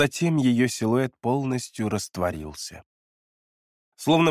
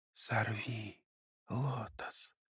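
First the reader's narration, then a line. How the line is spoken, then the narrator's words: Barely audible. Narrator (Russian): Девушка сказала еле слышным голосом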